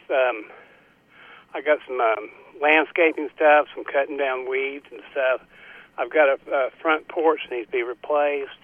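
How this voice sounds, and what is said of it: Out of breath, breathy speech. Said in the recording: “I'm out of breath.”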